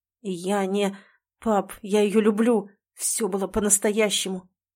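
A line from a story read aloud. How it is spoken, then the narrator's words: Hoarse, muffled voice. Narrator (Russian): сиплю глухо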